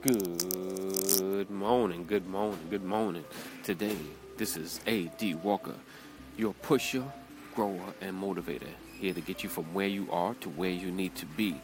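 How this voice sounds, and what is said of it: New York accent. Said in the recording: “this is my New York accent coming out”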